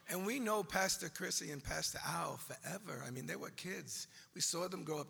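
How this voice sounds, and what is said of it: New York accent. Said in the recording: “this is a New York accent. It's not Iowa.”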